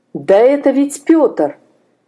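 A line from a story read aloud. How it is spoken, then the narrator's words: Horrified exclamation. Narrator (Russian): в ужасе воскликнул Степан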